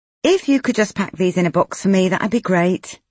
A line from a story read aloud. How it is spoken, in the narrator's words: Nikki said quickly, cutting him off